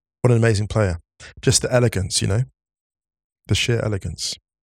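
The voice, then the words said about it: Emotional, moved speaking voice. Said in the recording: “Sorry, I'm getting emotional.”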